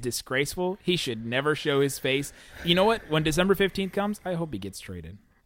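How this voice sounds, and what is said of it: Imitates another person's voice. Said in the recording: “That was my best Stephen A. Smith, Skip Bayless impersonation”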